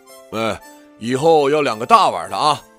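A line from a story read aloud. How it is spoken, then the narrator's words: Father's hasty call. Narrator (Chinese): 父亲发现我在吃他碗里的馄饨了，然后连忙跟后厨喊了一声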